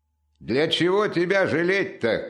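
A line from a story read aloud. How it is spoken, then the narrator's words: Shout. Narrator (Russian): крикнул хозяин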